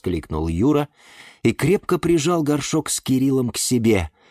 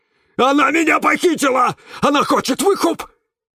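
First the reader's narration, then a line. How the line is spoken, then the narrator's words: Screaming. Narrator (Russian): завопил Кирилл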